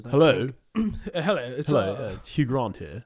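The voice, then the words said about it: Posh put-on phone voice. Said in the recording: “posh ... phone voice”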